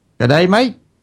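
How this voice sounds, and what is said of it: Put-on Australian accent. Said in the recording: “your Australian accent”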